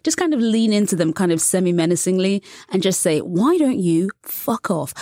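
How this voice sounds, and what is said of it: British accent. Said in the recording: “I have a British accent, which is pleasing to many American ears ... a charming British accent”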